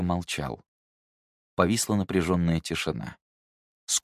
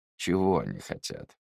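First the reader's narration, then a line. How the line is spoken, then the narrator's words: Muffled question. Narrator (Russian): глухо спросил он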